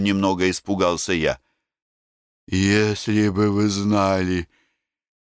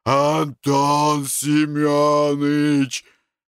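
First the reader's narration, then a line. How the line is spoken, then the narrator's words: Growled. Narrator (Russian): Семен прорычал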